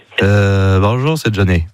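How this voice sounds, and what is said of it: Nasal, congested-sounding imitation of a singer. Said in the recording (French): “imitation de Johnny ... C'est Johnny qui parle du nez, qui est enrhumé”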